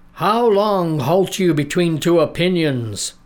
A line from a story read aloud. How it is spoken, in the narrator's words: cried the prophet